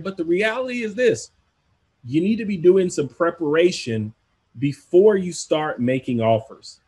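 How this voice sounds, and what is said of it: American country accent. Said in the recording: “I'm sorry for the country accent here”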